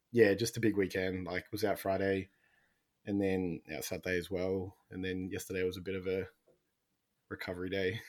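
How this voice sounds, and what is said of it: Rough, worn-out hoarse voice. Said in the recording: “I sound a bit dusty at the moment. I think my voice is a bit cooked at the moment. You might get a cheeky cough midway.”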